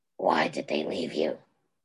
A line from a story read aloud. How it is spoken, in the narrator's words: Derek snarled at the old man